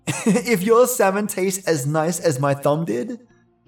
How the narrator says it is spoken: he laughed

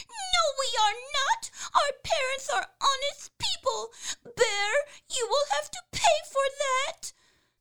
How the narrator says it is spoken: the young wrens were frightfully angry and screamed

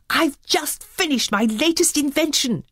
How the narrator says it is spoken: he exclaimed

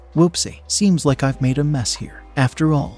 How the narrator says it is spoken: she eventually said, gasping for air, as she almost collapsed on the floor, exhausted

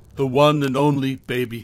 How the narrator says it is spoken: he said with a laugh

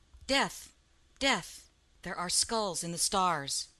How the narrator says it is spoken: Cain sighed

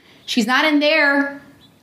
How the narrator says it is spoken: I called out

